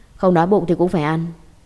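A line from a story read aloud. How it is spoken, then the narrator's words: Cold. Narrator (Vietnamese): lạnh lùng nói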